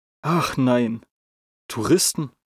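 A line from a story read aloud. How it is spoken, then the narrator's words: Gasp. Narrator (German): keuchte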